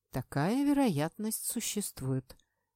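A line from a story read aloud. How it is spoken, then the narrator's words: Calm declaration. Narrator (Russian): заявил вполне спокойно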